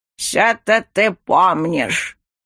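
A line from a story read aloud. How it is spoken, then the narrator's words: Reproachful grumbling old man. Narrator (Russian): проворчал с укором дедуля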